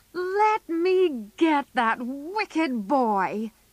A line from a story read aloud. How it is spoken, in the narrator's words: shouted Joe